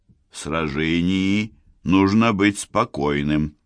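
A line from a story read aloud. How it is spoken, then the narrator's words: Quiet reproach. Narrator (Russian): Кико тихонько его укоряла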